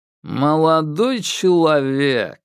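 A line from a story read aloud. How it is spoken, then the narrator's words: Disdainful drawl. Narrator (Russian): брезгливо протянул он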